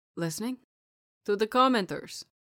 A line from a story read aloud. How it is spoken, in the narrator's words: Celestino asked with a chuckle